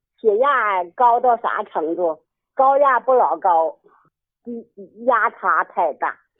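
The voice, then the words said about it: Northeastern Chinese accent, not Henan. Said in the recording (Chinese): “口音不像河南人呐。 ... 怪不得这口音不像。”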